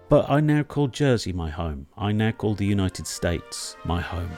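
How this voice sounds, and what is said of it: British accent. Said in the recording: “As you can tell by my accent, I'm originally from there ... I'm back in the UK”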